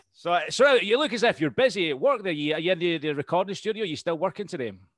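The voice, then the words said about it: Scottish accent. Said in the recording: “Like your accent. Where is that from? ... It's Scottish. ... I like that accent.”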